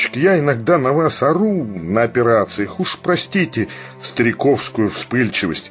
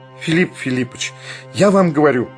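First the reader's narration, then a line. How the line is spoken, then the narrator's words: Passionate exclamation. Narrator (Russian): страстно воскликнул Барменталь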